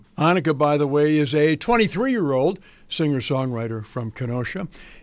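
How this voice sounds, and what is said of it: Slightly strained voice. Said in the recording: “apologize for my voice. It's a little strained today from some medical procedures”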